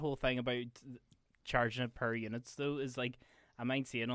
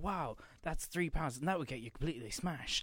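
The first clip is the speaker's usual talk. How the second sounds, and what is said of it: Imitates another person's voice. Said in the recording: “Terrible David Cameron impression”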